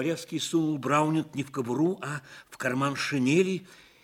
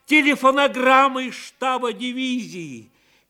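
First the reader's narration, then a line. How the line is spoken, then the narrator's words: Joyful shout. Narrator (Russian): Шаповалов … с подхода радостно закричал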